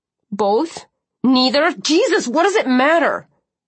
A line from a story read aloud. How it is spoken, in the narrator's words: she snapped